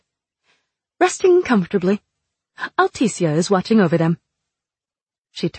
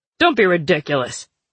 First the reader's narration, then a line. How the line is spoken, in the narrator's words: Fox said harshly